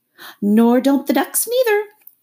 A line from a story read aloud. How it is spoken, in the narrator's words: replied the rat cheerfully